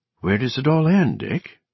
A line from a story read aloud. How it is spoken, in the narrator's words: Newt had asked uneasily